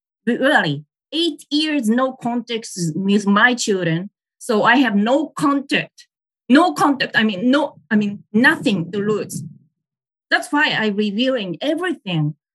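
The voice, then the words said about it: Loud, emotional speech. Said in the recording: “I'm talking too loud.”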